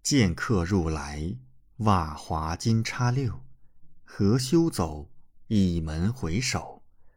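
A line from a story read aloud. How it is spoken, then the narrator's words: Slow voice. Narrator (Chinese): 李准的声音缓缓入耳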